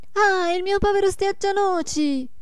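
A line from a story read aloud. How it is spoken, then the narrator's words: Shouted. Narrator (Italian): gridò la Marietta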